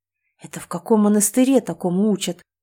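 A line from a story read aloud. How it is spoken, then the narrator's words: Surprised rasp. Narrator (Russian): удивленно прохрипел он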